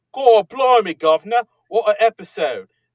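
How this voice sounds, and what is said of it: Exaggerated, clumsy fake British accent. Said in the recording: “your British accent is stunning ... It's not at all like you just suffered a massive head injury.”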